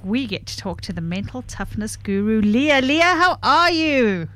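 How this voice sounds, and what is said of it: Announcer-style radio voice. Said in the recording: “in my best radio voice”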